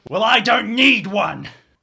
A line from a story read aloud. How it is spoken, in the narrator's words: he's going to shout